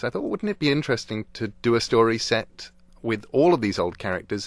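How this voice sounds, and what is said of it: British accent. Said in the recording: “people can tell from your accent that where you grew up was, somewhere well east of here, an island called Britain”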